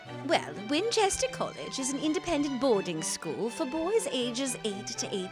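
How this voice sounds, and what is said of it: Put-on British accent, older woman character. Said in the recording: “You really need a British accent.”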